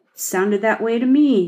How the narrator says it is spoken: he said flatly

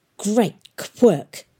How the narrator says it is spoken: hissed Valentine

